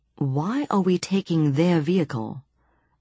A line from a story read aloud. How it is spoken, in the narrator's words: asked Johnny